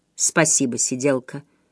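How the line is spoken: Hoarse, wounded man. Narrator (Russian): хрипло поблагодарил раненый

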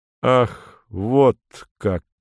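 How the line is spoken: Slow utterance. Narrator (Russian): медленно произносит он наконец

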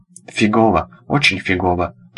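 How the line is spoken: Mumbled. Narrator (Russian): промямлил

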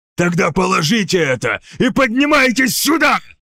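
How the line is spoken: Barked. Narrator (Russian): рявкнул Марвари

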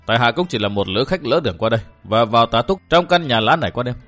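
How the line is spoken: Smiling reply. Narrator (Vietnamese): Vũ Vân mỉm cười đáp

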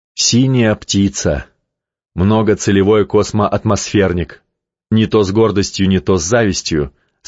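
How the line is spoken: Plain. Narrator (Russian): сказала Каховски

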